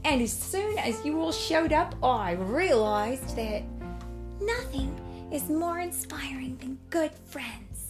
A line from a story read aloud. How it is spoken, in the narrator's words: Ronnie exclaimed